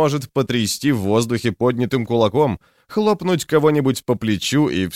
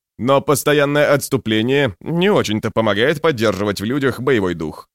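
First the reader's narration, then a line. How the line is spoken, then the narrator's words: Snort. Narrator (Russian): хмыкнул Антауп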